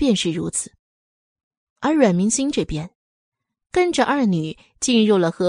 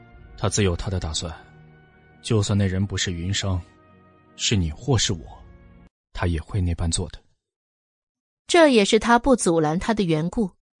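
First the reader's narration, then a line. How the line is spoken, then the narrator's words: Calm, indifferent. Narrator (Chinese): 傅长风淡淡的说道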